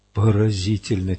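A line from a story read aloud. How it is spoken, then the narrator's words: Soft murmur. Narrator (Russian): тихонько пробормотала Адетта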